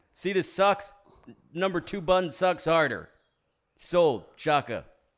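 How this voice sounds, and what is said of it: Imitates another person's voice. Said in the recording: “The Rock would just be like ... That's my impression.”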